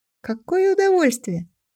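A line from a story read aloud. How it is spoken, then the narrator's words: Laughing, exhilarated. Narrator (Russian): Она рассмеялась, все еще пьяная от скорости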